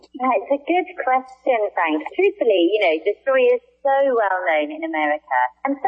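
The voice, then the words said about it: Non-American accent. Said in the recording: “We could hear from the accent that you probably weren't in America”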